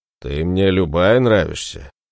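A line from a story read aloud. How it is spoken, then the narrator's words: Deep bass voice. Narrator (Russian): пробасил берсерк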